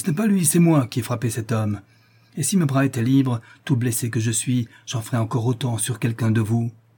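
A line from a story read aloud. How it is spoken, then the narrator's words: Exclaimed. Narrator (French): s'écria Paolo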